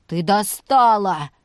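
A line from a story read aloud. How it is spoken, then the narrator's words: Barked. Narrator (Russian): рявкнул Макс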